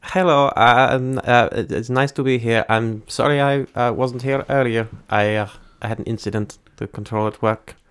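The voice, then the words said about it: Put-on accent, hard to understand. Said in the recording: “I have a little difficulty understanding your accent there.”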